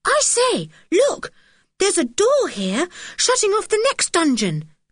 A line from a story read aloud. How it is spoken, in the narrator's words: suddenly cried Dick